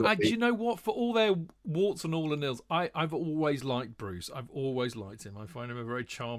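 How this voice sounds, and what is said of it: Usual voice. Nothing is said of it.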